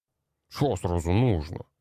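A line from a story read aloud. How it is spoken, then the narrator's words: Grumbling. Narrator (Russian): проворчал коротышка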